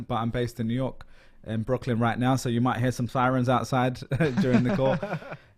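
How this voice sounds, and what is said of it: London English accent. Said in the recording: “I'm a Londoner, as you can probably tell from my accent”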